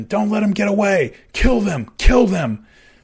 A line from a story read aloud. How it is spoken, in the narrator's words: Callie screamed at his man